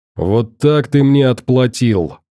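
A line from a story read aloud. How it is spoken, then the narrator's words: Growled. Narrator (Russian): рычал он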